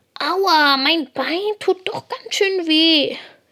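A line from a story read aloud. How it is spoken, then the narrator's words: Whining, lamenting. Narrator (German): jammert Lina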